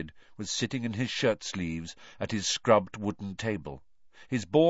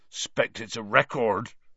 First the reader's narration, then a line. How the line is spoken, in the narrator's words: he said thickly